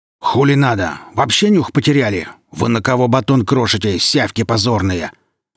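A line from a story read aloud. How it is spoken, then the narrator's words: Growl. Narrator (Russian): рыкнул Велес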